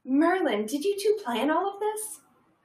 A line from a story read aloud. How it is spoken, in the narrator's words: Hermione asked excitedly